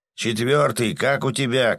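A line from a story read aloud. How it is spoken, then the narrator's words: Shouted. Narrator (Russian): крикнул он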